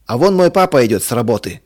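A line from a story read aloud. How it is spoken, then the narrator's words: Shouting. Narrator (Russian): крикнул Толик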